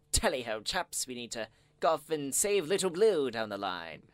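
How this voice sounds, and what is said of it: Put-on posh British accent. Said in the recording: “Terrible accent ... I didn't think it was that bad.”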